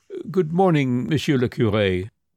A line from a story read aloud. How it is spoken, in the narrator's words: He faltered